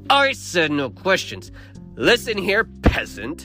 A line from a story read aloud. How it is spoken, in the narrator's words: he snarls